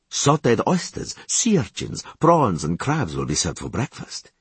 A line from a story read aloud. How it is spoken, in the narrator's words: he had said